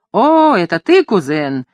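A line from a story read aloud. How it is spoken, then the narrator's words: Exclaiming, changed tone. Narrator (Russian): воскликнул мужчина совершенно другим тоном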